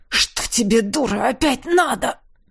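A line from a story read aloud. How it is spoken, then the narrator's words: Hoarse pained gasp. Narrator (Russian): Хрипло выдохнул я, когда она в очередной раз обожгла кожу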